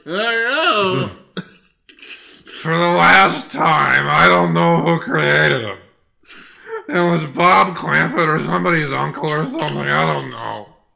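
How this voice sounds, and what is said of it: Drunk Friz Freleng impression. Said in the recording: “it sounds like Frizz Freeling drunk”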